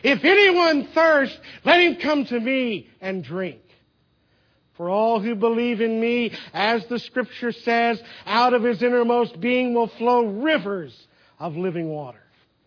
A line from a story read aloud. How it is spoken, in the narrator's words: a man shouted